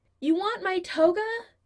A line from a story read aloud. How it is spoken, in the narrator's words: He yells towards the door